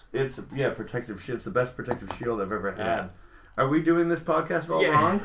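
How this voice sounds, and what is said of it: Hoarse, partly lost voice. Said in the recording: “I lost my voice... now my cough is gone, but my voice ain't back. I sound like RuPaul or something.”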